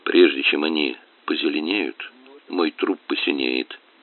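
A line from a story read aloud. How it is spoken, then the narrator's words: Gloomy voice. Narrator (Russian): мрачным голосом ответил Леша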